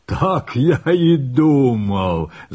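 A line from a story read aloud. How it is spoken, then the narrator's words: Laughing. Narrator (Russian): засмеялся Утгарда-Локи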